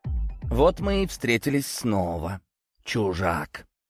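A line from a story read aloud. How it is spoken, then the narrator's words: Otherworldly laughing voice. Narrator (Russian): рассмеялся одержимый своим потусторонним голосом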